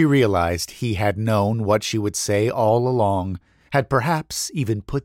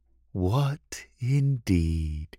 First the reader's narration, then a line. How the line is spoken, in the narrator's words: said in a dreamy voice